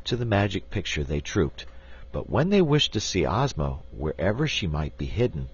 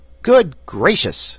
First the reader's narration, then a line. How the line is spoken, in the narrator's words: exclaimed Button-Bright